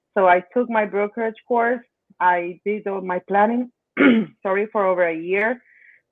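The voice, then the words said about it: Speaks English with an accent. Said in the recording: “Sorry, my accent.”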